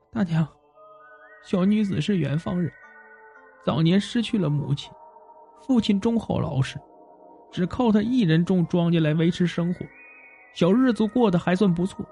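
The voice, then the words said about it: Trembling voice. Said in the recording (Chinese): “用颤抖的声音说”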